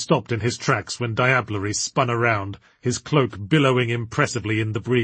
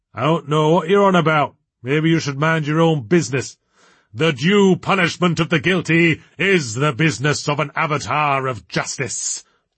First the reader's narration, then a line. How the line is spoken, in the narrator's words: boomed Diablery